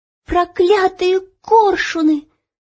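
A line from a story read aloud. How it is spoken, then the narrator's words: Shout. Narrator (Russian): закричала Ело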